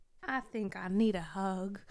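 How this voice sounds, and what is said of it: Poor impression of Donkey from Shrek. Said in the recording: “That was not a very good Donkey impersonation.”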